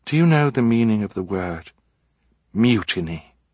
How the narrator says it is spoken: asked, in a calm, quiet voice

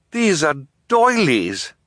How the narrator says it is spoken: Violet cried

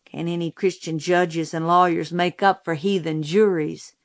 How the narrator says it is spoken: Jim muttered

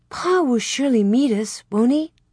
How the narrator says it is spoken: Carrie asked timidly

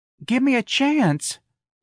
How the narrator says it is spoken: Darlene pleaded

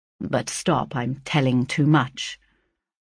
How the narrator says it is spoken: muttered the narrator, startled

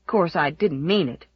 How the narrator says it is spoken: he muttered shamefacedly

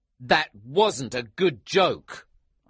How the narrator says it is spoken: said angrily

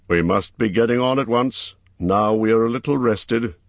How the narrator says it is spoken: he said

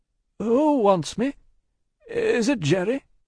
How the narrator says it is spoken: with mildly quavering speech

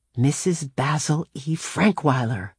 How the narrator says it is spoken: Claudia whispered

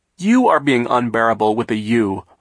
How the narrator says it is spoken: Violet cried

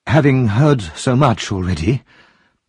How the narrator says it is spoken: murmured

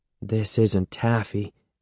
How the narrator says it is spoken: Evan muttered

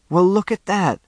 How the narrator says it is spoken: exclaim out loud

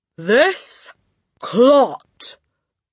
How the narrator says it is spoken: boomed the headmistress

